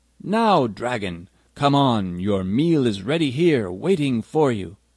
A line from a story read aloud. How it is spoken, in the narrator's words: called out loudly